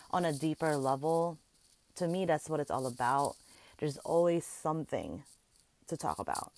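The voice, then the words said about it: Strong accent. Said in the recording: “my accent's coming out strong today”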